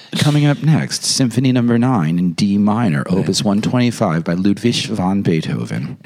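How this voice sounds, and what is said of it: Public radio announcer voice. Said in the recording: “We're now in the National Public Radio voice.”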